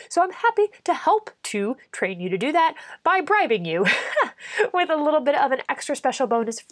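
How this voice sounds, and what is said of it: Sick, sloshy-sounding voice. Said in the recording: “my voice is a little bit funky today. I've been sick for a while ... if things sound extra kind of sloshy”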